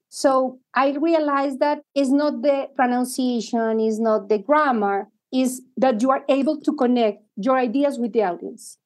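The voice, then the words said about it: Latin American accent in English. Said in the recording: “people remember who I am because I have this accent ... leaders who are from Latin America that talk like us”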